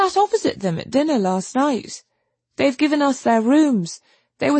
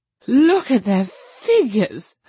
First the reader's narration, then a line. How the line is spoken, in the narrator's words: laughed Miss Lavish